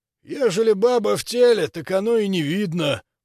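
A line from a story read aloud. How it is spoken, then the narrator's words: Low booming drone. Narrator (Russian): прогудел он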